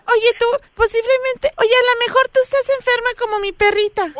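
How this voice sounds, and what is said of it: Childlike little girl's voice. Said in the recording (Spanish): “qué bonito hace la voz de niña”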